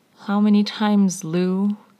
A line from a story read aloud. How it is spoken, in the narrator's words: Niall sighed again